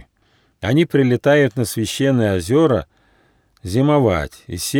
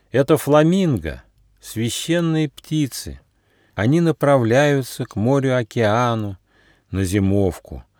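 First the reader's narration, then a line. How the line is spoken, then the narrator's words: Plain. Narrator (Russian): ответила роза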